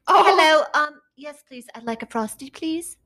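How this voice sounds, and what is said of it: Weak put-on British accent. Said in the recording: “bust out that accent ... That wasn't even good.”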